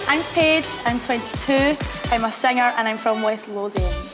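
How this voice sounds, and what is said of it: Woman speaking in her own accent. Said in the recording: “Let's play some of her accent here because I want to hear it again.”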